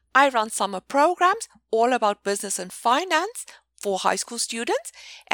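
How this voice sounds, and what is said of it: South African accent. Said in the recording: “in case you're wondering about my accent, I'm originally from South Africa”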